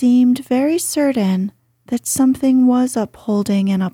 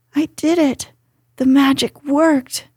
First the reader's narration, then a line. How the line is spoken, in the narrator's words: he cried